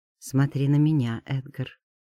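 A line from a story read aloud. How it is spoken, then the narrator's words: Gentle command. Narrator (Russian): мягко приказал Деррик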